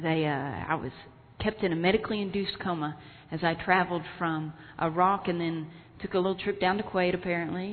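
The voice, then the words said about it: Texas accent. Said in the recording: “Dallas, Texas, where I'm from, in case you're wondering where this lovely accent is from”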